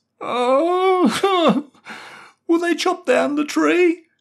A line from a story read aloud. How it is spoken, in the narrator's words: he sobbed